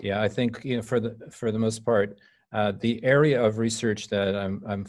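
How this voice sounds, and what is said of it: Irish accent. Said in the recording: “you from Ireland originally, as your accent lets us know”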